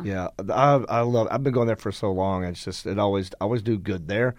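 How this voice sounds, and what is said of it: Tired, worn-out voice. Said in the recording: “you can tell my voice is not all here”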